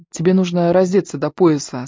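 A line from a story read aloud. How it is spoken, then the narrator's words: Plain. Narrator (Russian): сказала Ивон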